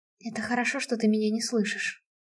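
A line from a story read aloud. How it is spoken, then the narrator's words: Soundless whisper. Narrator (Russian): прошептала я одними губами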